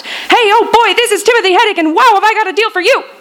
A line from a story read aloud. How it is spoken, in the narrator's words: His messages would screech real fast